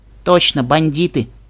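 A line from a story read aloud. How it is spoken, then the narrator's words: Snorting. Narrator (Russian): фыркнула Ди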